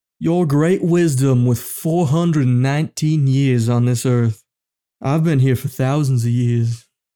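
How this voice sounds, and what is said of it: Put-on Southern American accent. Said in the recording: “the southern accent ... it's a bit of an affectation”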